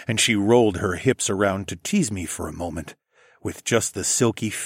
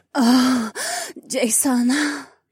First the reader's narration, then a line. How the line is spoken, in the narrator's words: Haywan moaned